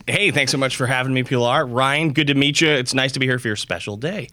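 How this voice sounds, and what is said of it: Smooth radio-style voice. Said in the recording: “You have a really great radio voice.”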